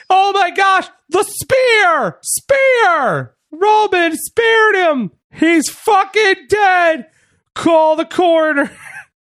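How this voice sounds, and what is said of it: Excited wrestling commentator shouting calls. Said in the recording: “That's my impression of Michael Cole calling out”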